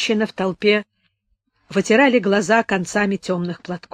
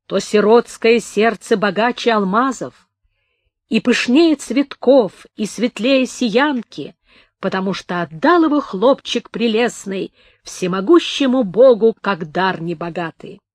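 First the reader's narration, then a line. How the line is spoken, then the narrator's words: Singing, hollow and strong. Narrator (Russian): Слепец запел глухим и сильным голосом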